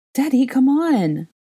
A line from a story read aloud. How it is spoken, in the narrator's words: Aurelian whined